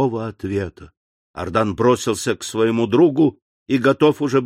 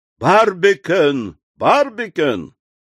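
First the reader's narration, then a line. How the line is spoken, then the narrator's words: Shouted. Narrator (Russian): Ардан крикнул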